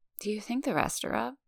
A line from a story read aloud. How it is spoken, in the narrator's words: She mumbles